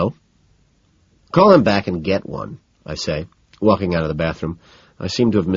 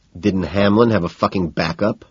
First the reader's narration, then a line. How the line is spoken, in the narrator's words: I growl, irritated